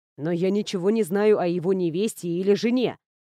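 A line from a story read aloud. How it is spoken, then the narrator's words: Plain. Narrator (Russian): сказал Эйнар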